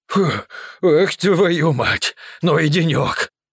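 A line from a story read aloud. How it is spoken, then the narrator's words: Exhaling. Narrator (Russian): Выдохнул пряник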